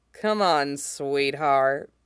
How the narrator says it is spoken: he says, faintly mocking

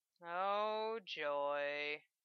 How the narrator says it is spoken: he muttered

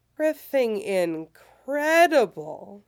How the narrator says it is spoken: he says, lazily pleased

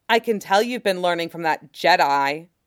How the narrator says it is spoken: Bo-Katan growled for only him to hear

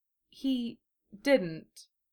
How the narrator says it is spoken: she said hesitantly

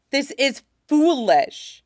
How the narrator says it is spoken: snaps, anger making his arms shake

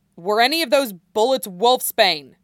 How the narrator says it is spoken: Chris is shouting

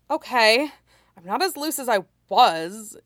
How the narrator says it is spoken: he grumbled

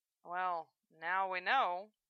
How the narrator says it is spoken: Val said in a low voice

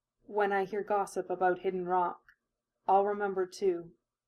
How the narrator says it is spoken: she murmured

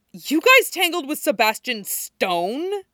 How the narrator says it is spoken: she chokes on a mouth of spanakopita and blurts out

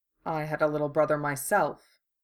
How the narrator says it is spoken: Lex said, hearing his voice go soft and distant, the way it always did when he talked about Julian

